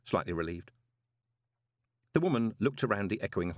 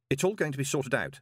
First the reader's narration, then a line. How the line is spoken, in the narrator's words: said Moist quickly